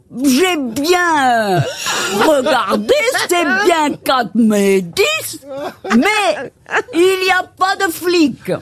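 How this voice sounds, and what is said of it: Badly done put-on Belgian accent. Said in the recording (French): “j'ai jamais vu quelqu'un faire aussi mal un accent belge”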